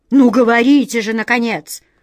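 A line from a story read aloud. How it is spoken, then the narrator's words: Stern command. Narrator (Russian): строго приказала королева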